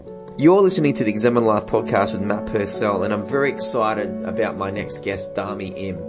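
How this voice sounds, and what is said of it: Strong Australian accent. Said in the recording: “my voice sounds the way it is. I've got a very strong Australian accent.”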